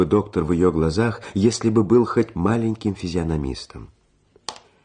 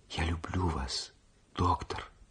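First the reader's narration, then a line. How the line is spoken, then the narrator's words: Whisper. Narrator (Russian): прошептала она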